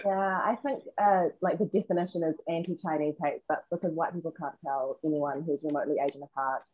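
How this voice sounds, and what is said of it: New Zealand accent. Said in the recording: “So I hear an accent from you. Is that Australia? ... New Zealand.”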